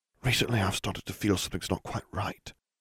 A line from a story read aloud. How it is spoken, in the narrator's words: Harry whispered in her ear